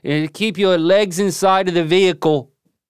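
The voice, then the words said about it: Put-on Australian accent. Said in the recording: “The difference between an Aussie accent and a Kiwi accent, as far as I can tell, is just the inflection at the end ... is my Aussie accent”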